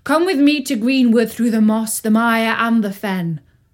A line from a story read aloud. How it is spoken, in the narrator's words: called out Robin